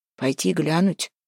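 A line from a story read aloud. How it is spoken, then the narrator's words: Grumbling mutter. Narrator (Russian): буркнул Куприян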